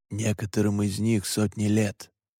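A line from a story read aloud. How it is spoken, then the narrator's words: Quiet male. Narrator (Russian): тихо сказал Александр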